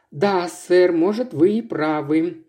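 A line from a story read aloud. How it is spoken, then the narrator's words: Reluctant drawl. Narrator (Russian): неохотно протянула она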